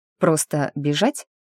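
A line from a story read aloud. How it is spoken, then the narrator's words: Confused question. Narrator (Russian): растерянно уточнила я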